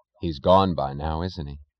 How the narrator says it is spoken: he asked

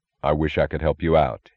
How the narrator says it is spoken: he said

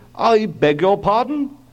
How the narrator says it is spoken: Coolly, the painter

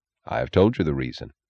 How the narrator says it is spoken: he answered gravely

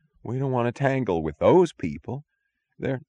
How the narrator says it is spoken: moaned a shaky voice from among the guards

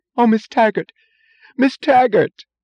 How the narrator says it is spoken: said, in a joyous moan, the voice of the severe, unemotional Miss Ives

